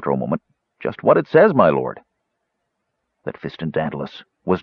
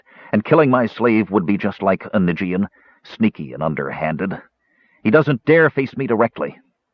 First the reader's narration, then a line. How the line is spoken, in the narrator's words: Quarath snapped